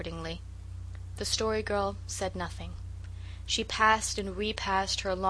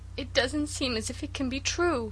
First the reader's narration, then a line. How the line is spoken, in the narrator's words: sobbed Cecily